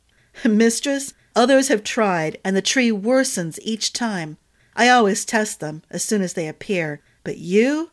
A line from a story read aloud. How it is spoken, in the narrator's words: chuckled